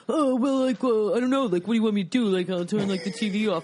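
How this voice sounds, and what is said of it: Imitates a generic guy's voice. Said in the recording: “my impression of your husband ... Mine is this, which is the same for every guy”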